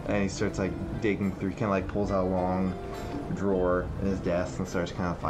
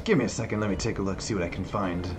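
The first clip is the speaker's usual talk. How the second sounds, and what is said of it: Dwarven fantasy character accent. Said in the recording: “I was doing a dwarven accent.”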